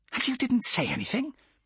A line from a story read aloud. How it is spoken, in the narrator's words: Her voice was a furious hiss